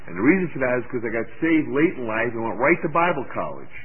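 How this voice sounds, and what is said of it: Brooklyn accent. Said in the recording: “I speak with a Brooklyn accent”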